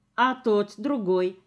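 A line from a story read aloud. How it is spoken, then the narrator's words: Plain. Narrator (Russian): спросила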